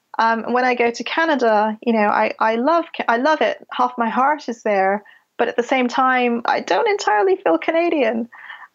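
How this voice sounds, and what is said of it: Slight Canadian accent. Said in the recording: “a Canadian accent or a touch of a Canadian accent”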